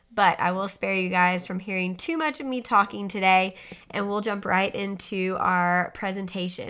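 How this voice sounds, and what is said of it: Slightly hoarse, losing voice. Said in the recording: “I sound a little different, it's because I'm slightly hoarse and kind of losing my voice”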